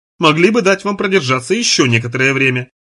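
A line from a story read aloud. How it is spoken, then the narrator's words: Malicious, smirking. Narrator (Russian): произнося это слово, Дюран злобно ухмыляется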